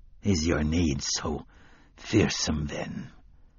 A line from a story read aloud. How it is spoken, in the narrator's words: Court muttered as if in his sleep